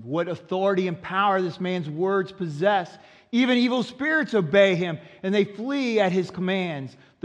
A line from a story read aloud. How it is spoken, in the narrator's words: amazed, the people exclaimed